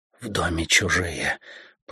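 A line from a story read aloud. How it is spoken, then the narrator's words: Whisper. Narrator (Russian): прошептала она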